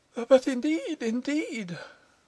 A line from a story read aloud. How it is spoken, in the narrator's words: pleaded Pitman